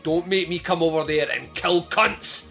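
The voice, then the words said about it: Intimidating put-on Scottish accent. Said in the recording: “I put the intimidating Scottish accent”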